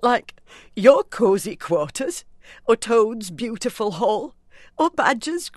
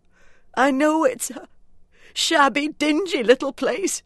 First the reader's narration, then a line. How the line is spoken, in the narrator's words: he sobbed forth at last, brokenly